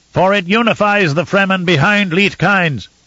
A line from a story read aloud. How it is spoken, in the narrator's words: Einar shouted into the cavern